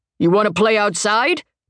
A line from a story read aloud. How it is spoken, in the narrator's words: the man booms